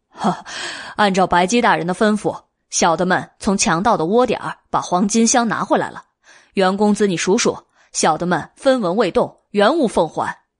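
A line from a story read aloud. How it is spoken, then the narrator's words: Laughing. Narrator (Chinese): 黑花狸猫笑了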